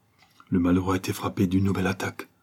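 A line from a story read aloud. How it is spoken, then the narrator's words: Plain. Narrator (French): dit M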